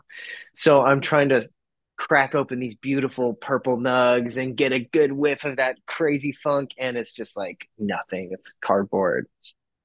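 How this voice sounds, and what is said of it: Slightly nasal, congested voice. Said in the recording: “I'm getting over a cold. ... If I sound a little nasally”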